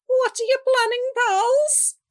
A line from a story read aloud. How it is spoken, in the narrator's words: Salty asked, his voice high